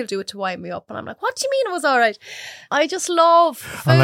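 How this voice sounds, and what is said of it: Usual voice. Nothing is said of it.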